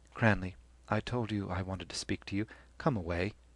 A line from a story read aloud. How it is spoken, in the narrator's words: feigning patience, said quietly